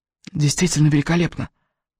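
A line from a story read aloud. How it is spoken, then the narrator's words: Whisper in ear. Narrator (Russian): прошептал он прямо в ухо Элис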